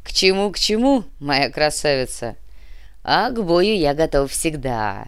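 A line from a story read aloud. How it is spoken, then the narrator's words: Big man laughing heartily. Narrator (Russian): Расхохотался здоровяк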